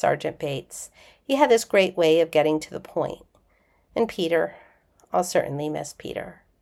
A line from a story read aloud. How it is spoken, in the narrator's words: McKay said softly